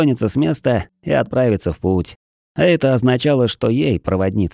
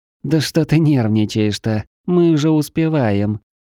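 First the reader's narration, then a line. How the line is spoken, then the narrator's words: Whiny teasing moan, female. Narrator (Russian): Подружески пытаясь разозлить подругу, простонала Света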